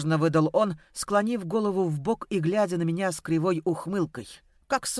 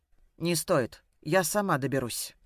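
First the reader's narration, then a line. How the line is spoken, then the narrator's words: Icy, pained. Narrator (Russian): проговорила ледяным тоном, испытывая нарастающую боль в груди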